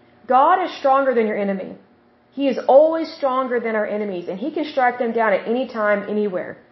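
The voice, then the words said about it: Oklahoma accent. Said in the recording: “excuse my accent there with Oklahoma”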